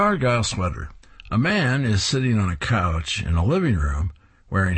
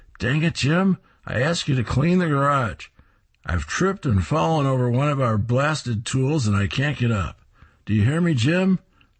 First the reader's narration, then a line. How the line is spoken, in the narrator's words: The wife shouts